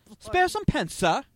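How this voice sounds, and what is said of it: Put-on British accent. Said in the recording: “That's my British accent. Not bad.”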